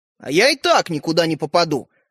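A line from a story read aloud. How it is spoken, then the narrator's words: Snapping retort. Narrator (Russian): огрызнулся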